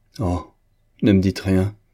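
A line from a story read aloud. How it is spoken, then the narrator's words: Exclaiming. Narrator (French): s'écria-t-elle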